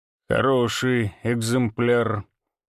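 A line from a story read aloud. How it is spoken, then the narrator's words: Drawling. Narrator (Russian): протянул он наконец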